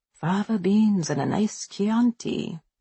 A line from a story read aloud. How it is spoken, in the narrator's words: I murmur